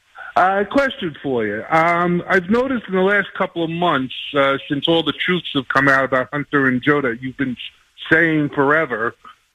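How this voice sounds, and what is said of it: New York accent. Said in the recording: “You sound like a New Yorker that moved down to Florida.”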